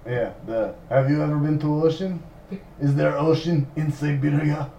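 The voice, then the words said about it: Put-on Russian accent. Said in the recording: “practice Russian accent”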